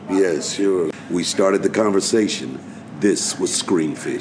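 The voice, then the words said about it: Deep radio voice, like James Earl Jones. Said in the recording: “that great radio voice ... It's very James Earl Jones with this.”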